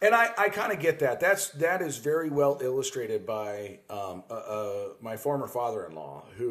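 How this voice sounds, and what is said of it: Usual voice. Nothing is said of it.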